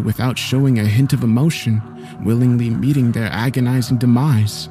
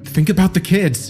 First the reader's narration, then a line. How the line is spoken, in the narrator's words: I begged her